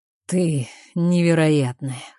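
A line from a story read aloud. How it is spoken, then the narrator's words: Hoarse whisper. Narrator (Russian): хрипло шепчет Джейсон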